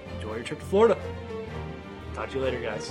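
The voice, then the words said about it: Announcer voice. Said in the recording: “You went into announcer voice.”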